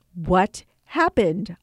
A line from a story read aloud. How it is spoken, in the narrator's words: I asked him